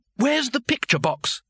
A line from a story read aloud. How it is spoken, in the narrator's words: he asked urgently